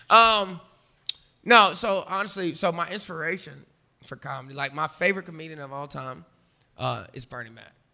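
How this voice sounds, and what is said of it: Southern American accent. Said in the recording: “I have a certain cadence, I think, about how I talk ... I have a Southern accent”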